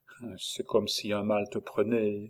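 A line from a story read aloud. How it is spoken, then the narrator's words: Tearful young woman murmuring. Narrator (French): murmura la jeune femme, qui eut les larmes aux yeux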